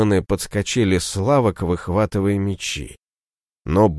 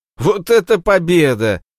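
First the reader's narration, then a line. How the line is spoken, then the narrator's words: Girls yelling in unison. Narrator (Russian): завопили в один голос девчонки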